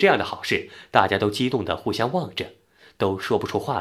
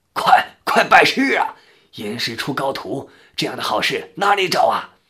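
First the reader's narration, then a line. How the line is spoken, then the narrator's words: Old man hurriedly shouting. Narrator (Chinese): 太爷爷赶忙喊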